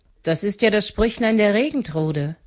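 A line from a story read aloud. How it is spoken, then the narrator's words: Exclamation. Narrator (German): rief Frau Stine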